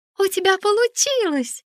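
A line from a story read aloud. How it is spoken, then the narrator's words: Exclamation. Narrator (Russian): воскликнула Лиса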